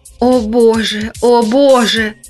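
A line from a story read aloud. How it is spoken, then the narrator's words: Anguished groaning. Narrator (Russian): застонал он голосом полным муки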